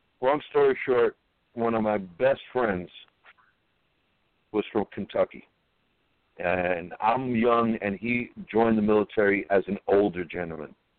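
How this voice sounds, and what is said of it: Strong Brooklyn accent. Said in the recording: “I'm from Brooklyn ... My accent is just outrageous. I try to curb it.”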